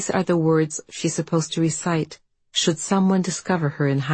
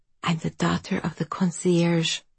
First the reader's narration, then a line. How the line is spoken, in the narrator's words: she whispers, feeling out the lie